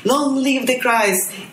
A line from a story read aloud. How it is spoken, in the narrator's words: everyone was shouting